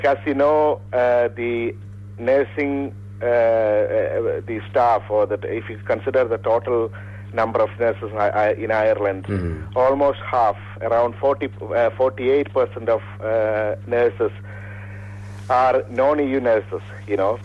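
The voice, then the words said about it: Unwell, flu-affected voice. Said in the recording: “my voice is not better today. ... some bit of flu. ... Symptoms”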